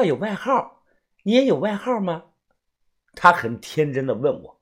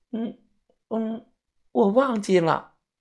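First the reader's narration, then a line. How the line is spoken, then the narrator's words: Shy, quiet voice. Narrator (Chinese): 小女孩 小声的说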